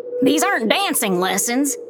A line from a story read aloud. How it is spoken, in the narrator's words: Mal barks